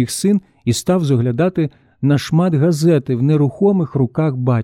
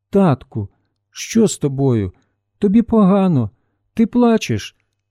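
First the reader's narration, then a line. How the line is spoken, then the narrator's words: Worried voice. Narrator (Ukrainian): Стурбованим голосом син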